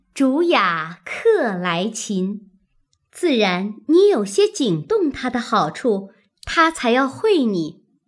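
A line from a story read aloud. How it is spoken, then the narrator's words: Laughing. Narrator (Chinese): 湘云笑道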